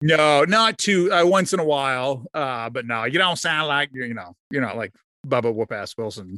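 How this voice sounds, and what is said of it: Usual voice. Nothing is said of it.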